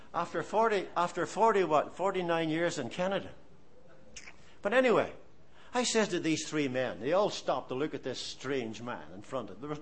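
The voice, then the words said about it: Irish accent. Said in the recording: “Do I still have an Irish accent? Do I? I do.”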